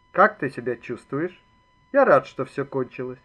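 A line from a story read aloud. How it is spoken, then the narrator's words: Calm voice. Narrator (Russian): другой Ребров сказал спокойным голосом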